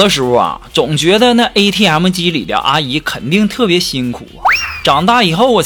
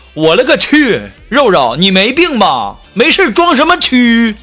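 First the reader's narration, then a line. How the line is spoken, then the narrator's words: Startled cry. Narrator (Chinese): 她男朋友 惊叫一声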